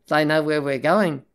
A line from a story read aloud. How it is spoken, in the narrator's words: it said